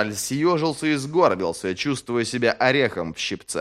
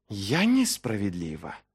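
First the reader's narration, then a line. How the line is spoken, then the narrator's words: Hiss. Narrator (Russian): прошипела она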